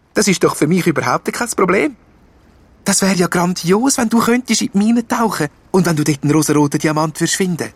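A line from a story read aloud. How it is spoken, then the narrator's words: Excited. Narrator (German): sagt Fee aufgeregt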